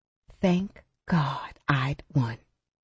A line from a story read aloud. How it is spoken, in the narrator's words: whispered